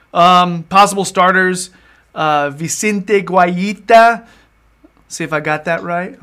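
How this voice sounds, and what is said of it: Names read in mock Spanish accent. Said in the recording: “I like that, my Spanish accent.”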